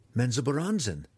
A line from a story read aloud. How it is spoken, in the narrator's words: the cleric cried, thinking the male confused beyond reason